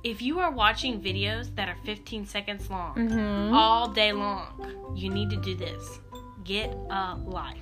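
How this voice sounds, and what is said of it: Sweet, soft, low voice. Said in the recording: “I'm going to say this really nice and really sweet in my nice voice ... I'm going to say it in my sweet voice ... I said it really low”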